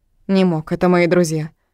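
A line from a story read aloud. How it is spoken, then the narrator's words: Firm, no doubt. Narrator (Russian): твердым голосом, в котором нет ни капли сомнений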